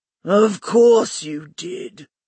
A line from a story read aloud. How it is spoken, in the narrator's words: Bly grumbled